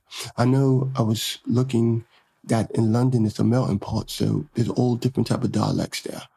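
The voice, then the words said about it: Attempted British accent. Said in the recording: “trying to work on my British accent”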